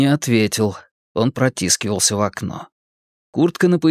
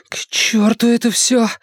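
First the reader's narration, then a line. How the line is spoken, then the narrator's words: Frightened mutter under breath. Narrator (Russian): испуганно пробормотал Ричи себе под нос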